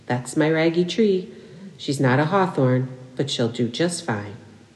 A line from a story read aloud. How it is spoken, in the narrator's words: Maeve would simply say in her lilting voice